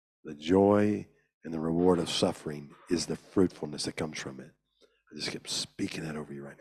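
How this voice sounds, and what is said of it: Hoarse, nearly lost voice. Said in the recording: “My voice just about gone.”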